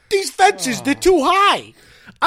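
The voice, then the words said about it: Put-on New York accent. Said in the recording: “give him a New York accent”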